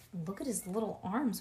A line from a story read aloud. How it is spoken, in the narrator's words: whispered Grace